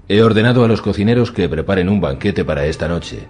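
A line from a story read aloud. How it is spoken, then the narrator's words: Plain. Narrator (Spanish): le dijo Arián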